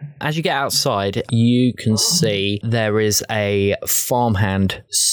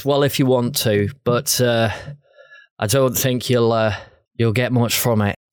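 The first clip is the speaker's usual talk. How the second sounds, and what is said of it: Inconsistent accented character voice. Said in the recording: “My accent's all over the place tonight.”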